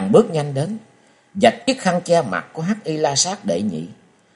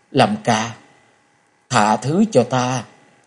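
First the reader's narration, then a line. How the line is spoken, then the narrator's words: Hoarse voice. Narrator (Vietnamese): nàng giọng khàn khàn nói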